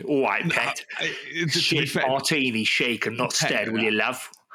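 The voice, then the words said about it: Put-on East End London accent. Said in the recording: “sound like he's from East End of London ... pet is more like Geordie”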